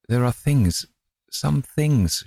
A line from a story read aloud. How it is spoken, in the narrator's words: she faltered